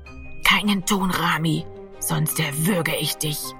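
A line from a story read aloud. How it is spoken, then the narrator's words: Whispered into ear. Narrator (German): flüsterte Gero an seinem Ohr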